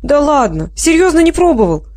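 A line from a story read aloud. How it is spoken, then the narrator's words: Laughing. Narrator (Russian): засмеялась Генриетта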